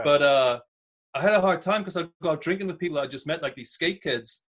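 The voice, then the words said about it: Northern English Newcastle accent. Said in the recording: “super strong accent, Northern England ... my accent starts coming out more ... the accent's so, like, boisterous almost, right? It's loud”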